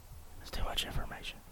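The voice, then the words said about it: Whispering. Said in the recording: “Why are you whispering? ... Because I feel like I'm yelling.”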